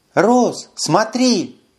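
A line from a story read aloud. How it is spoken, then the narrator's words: Exclaimed. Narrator (Russian): воскликнула Карара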